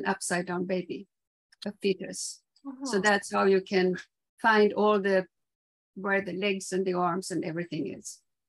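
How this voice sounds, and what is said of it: Swedish accent. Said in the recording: “where is your beautiful accent from? ... I'm Swedish originally.”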